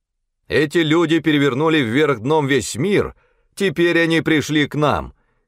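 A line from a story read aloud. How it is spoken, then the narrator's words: Shouting crowd. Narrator (Russian): кричали они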